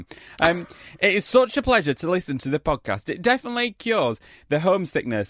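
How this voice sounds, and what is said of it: Northern English accent. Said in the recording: “hearing the beautiful twang of your voices and gripping tales from the north”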